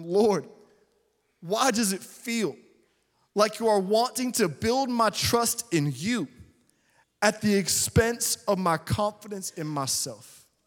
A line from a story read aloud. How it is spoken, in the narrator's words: in what I only know to describe as a moment of despair, I cried out to God, asking him